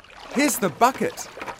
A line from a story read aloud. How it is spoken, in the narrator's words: cried Sione